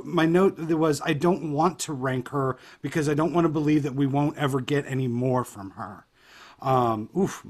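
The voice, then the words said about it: Voice breaking with emotion. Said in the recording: “my voice is breaking a little bit”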